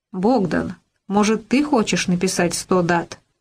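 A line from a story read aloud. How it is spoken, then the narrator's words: Sharp question. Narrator (Russian): резко спросил Вениамин Павлович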